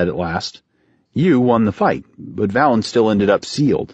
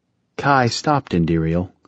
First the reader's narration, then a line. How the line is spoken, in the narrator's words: Otoku said softly